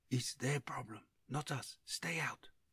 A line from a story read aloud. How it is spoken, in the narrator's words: whispering